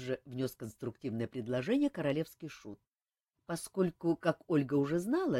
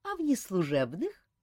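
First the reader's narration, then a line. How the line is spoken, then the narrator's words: Laughing. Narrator (Russian): засмеялась художница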